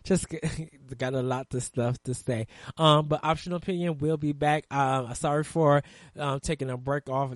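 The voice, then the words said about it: Strained, hoarse voice. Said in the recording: “Sorry that I'm losing my voice.”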